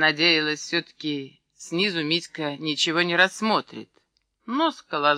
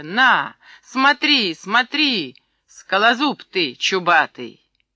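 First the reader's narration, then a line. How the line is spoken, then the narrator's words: Desperate shout, near tears. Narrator (Russian): отчаянно крикнула, чуть не плача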